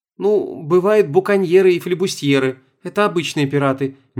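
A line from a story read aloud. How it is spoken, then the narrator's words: Hesitant start. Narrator (Russian): неуверенно начала Света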